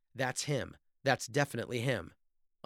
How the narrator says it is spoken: she exclaimed

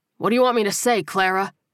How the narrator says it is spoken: He snapped

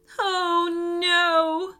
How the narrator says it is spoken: wailed the meat eating dinosaur

